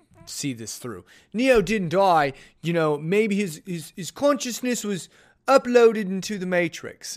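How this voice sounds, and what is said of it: Poor put-on British accent. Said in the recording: “my British accent is horrible”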